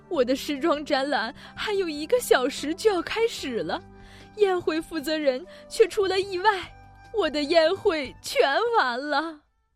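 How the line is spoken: Sobbing, tearful. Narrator (Chinese): 苏菲亚夫人哭哭啼啼的说

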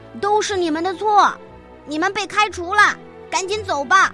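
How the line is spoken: Angry yelling. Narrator (Chinese): 对厨子们大喊大叫

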